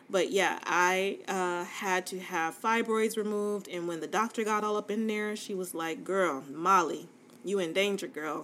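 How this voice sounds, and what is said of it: Fast, stuttery speech. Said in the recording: “I don't know why I'm so stuttery right now. I think I'm talking too fast”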